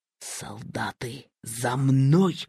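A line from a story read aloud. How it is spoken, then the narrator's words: Whispered. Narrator (Russian): шепнул старшина Серпокрылов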